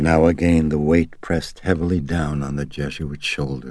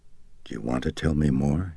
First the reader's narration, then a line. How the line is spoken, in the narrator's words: he asked Chris gently